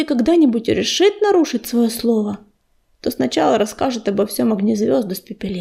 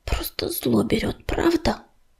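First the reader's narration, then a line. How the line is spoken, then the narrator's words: Angry whisper. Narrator (Russian): прошептала Медуница, сердито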